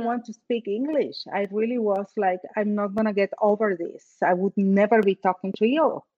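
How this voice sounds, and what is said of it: Foreign accent in English. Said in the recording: “my accent ... I accept it as a sexy accent ... Lara has that amazing accent”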